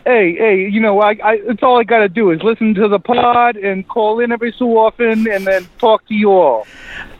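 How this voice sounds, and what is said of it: New York-sounding regional accent. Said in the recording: “the gentle cadence of your accent ... I sound like I'm from New York, but I'm from New Jersey”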